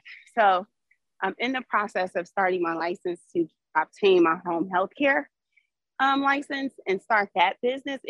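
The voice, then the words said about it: Out of breath while talking. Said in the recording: “I'm walking my dog, I'm out of breath.”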